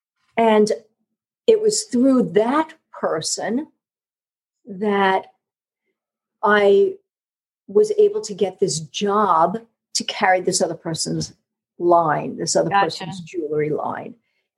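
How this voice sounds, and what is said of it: New York accent. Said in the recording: “hear it in my voice, my New York accent”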